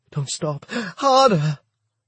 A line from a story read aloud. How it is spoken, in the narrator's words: Grunting